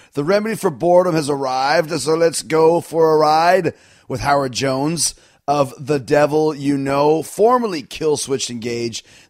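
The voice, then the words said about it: Slightly raspy, sick-sounding voice. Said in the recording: “hear it in my voice, a little bit raspy, a little bit sick”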